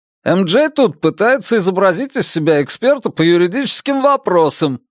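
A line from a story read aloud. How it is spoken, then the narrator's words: Said to camera. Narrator (Russian): сказал Уолли в камеру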